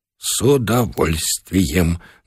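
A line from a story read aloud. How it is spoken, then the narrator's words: Trembling voice. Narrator (Russian): дрогнувшим голосом пообещал Бычков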